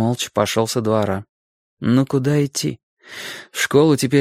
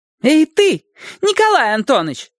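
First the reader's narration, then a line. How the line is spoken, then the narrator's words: Shouted. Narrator (Russian): крикнула она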